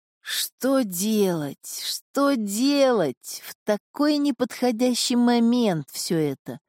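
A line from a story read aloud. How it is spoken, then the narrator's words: Groaning lament. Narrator (Russian): простонал король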